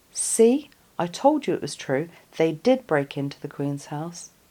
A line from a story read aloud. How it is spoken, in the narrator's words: Jenny saying loudly